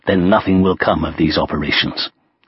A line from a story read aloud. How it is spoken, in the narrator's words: When he heard that the Allies had not yet agreed on a commander, he growled